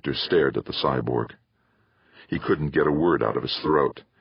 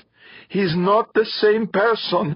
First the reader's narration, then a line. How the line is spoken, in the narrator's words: Elverda pleaded